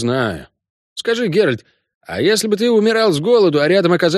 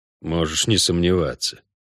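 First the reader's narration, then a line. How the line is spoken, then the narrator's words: Said through clenched teeth. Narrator (Russian): процедил Геральт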